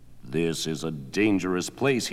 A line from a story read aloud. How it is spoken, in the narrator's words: he growled